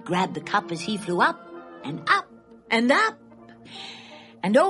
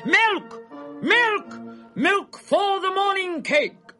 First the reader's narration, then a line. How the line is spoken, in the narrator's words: the bakers howling